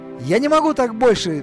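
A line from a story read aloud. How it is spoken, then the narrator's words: Sudden shout. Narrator (Russian): внезапно закричал Пол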